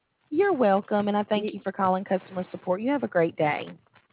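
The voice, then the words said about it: Alabama Southern accent. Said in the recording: “I like your accent. ... I'm from Alabama. ... It's very cute.”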